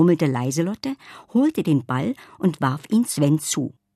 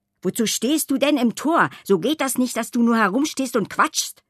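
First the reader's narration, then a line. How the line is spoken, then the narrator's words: Man snapping gruffly. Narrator (German): schnauzte er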